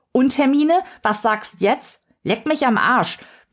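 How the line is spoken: Farmwoman bellowing at audience. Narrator (German): brüllt die Bäuerin in den Zuschauerraum

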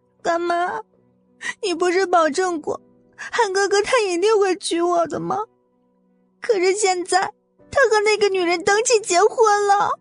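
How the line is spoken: Tearful complaining. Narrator (Chinese): 江媛媛听到他的声音，立马抬起头来，扑进穆蒹葭的怀里，哭诉着

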